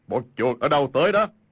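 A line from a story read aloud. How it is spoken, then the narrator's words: Big man's loud shout. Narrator (Vietnamese): thân thể cao lớn, y quát lớn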